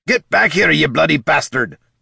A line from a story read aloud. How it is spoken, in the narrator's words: Gorm roared